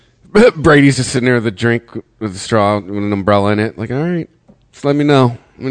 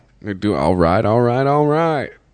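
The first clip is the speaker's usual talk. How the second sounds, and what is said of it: Matthew McConaughey impression. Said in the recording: “doing their best impersonation of McConaughey”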